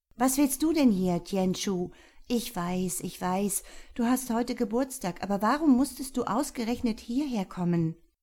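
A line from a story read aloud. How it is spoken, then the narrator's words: Female calling across crowd. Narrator (German): rief, als sie ihren Bruder in der Menge ausmachte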